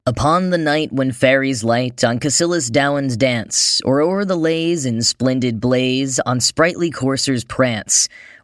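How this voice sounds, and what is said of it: American accent. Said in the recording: “in my boring American accent”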